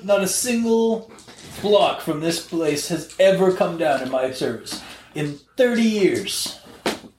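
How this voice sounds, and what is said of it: Attempted Jersey Shore accent, sounds Russian. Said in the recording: “I'm trying not to do a Russian accent. I was actually going for like a douchebag Jersey Shore thing.”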